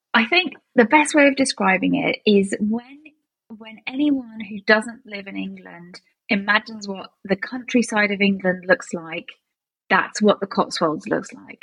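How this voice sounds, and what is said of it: British accent. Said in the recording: “your British accents”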